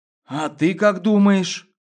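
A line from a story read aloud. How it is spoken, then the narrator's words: Uncertain question. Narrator (Russian): Неуверенно переспросил он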